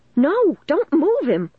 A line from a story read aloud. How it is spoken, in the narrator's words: I cried